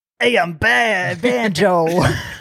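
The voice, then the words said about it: Impression of Banjo. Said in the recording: “my Banjo impression”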